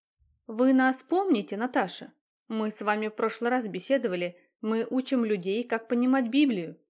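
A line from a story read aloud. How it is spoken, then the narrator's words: Plain. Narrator (Russian): сказали они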